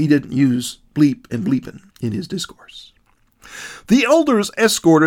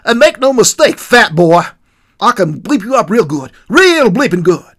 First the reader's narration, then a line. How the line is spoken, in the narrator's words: exclaimed